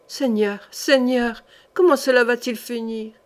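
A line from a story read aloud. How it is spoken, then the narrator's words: Moaning. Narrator (French): gémit Thibaut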